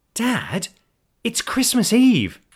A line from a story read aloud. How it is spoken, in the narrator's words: Olivia exclaimed, with all the tolerance and patience 26 years with her father had taught her